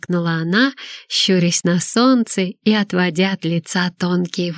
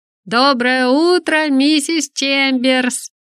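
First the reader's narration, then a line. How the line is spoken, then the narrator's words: Shouted in unison. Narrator (Russian): хором крикнули Молли и Арт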